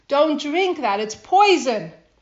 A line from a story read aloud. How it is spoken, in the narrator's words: he shrieks